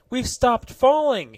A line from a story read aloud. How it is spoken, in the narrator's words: he cried